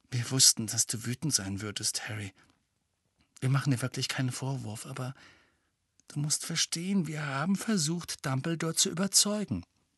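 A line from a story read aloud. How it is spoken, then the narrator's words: Quiet speech. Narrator (German): Hermine sagte leise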